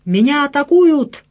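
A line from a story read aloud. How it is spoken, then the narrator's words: Shouting. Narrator (Russian): кричал он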